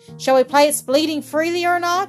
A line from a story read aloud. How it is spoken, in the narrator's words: he asked cheerfully